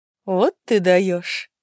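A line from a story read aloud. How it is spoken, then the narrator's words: Nervous giggle. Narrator (Russian): нервно хихикнула Стелла, у которой до этого буквально руки тряслись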